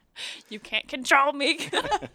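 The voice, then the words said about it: Nasal evil voice. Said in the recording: “It's like your evil voice. ... It's like all nasally.”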